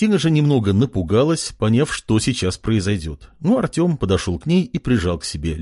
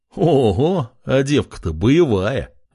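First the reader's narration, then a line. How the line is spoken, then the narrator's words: Restrained laugh. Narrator (Russian): сдержанно рассмеялся блондин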